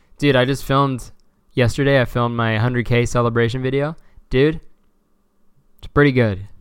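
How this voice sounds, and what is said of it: Unusually deep voice. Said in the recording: “my voice is so deep right now. Cool. I finally sound like a man.”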